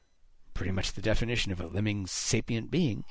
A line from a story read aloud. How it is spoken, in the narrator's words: Haddix muttered